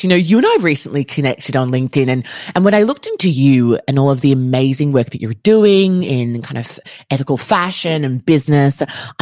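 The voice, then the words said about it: Australian accent. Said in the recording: “your beautiful Australian accent.”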